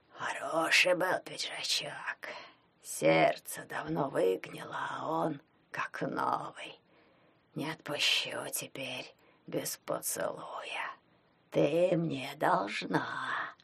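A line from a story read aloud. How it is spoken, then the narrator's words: Wheezing. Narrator (Russian): просипел он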